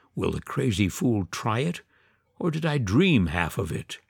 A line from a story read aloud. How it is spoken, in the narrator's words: he muttered to himself